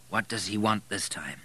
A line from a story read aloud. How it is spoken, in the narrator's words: he said wearily